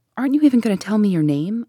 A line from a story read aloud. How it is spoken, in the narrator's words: I cried